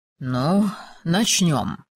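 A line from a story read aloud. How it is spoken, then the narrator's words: Mutter. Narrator (Russian): пробормотал он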